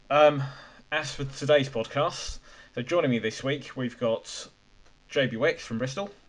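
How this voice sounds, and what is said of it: Croaky, strained voice. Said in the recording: “my voice is a bit croaky ... I was screaming my head off ... my voice might be somewhat croaky”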